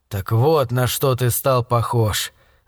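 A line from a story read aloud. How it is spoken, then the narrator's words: Annoyed grumble. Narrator (Russian): с досадой проворчал я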